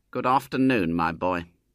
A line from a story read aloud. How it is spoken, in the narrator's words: said icily